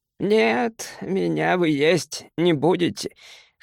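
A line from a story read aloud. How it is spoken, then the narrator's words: Hoarse. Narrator (Russian): хрипло сказал фей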